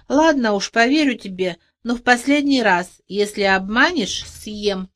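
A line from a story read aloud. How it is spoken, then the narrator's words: Gentle growl. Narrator (Russian): прорычал, но уже не сердито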